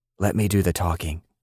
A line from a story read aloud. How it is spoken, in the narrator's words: Papaw whispered